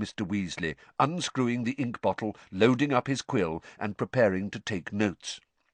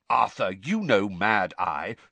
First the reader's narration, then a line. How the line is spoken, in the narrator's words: said Mr